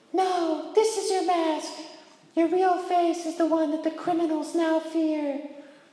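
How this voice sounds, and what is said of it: Imitates a female movie character. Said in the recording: “my Rachel Dawes voice”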